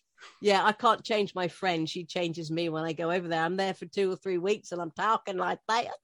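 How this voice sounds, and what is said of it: British accent. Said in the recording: “the british accent which obviously gives me away completely”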